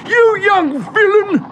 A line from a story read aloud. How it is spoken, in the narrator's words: spluttered Mr